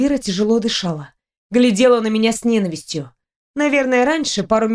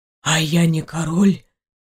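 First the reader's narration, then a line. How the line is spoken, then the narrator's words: Terrible whispered question. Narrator (Russian): страшным шепотом спросил принц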